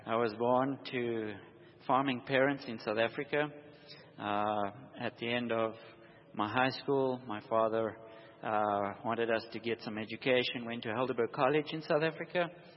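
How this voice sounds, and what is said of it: Slight South African accent. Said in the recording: “a little southern accent in your speech, but not the kind of southern accent that you'd run into here in Texas ... It comes from the deep south ... South Africa.”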